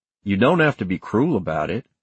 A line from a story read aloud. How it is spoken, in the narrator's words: Pete said